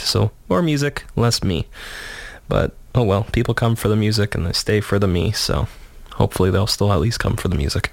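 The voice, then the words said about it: Shaky voice recovering from cold. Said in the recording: “getting over a cold, so my voice is still kind of shaky”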